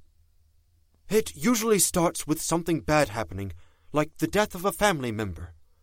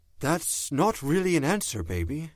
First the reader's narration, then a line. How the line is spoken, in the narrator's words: he said, very gently